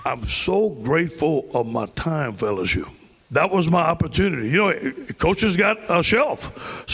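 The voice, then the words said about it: Heavy Southern swamp accent. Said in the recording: “there is some heavy swamp in this accent”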